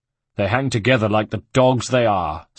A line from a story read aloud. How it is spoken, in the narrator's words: snapped Mario